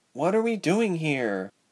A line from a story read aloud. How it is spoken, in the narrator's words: the wavy-haired girl asked shakily